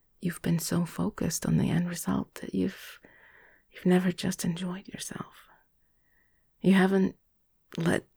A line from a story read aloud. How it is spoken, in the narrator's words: he said, his voice a soft, low murmur